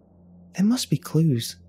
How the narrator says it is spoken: she said in an excited voice

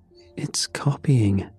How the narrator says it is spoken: Ethan, hovering behind her, whispered

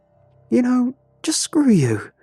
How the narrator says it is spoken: she screamed

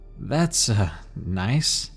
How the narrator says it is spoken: laughed nervously

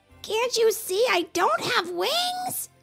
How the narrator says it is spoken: Rollo screeched

